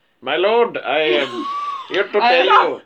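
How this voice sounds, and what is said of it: Exaggerated mock Indian accent. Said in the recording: “vaguely sort of cod Central Asian accent ... India ... Too Indian! ... too South Asian”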